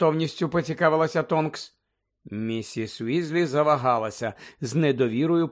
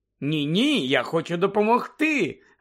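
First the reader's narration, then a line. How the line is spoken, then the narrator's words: Joyful exclamation. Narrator (Ukrainian): радісно вигукнула Тонкс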